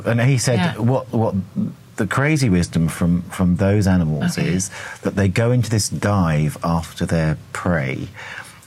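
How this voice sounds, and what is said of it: English accent. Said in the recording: “my English accent.”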